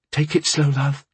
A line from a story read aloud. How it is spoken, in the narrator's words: Alia cooed, worriedly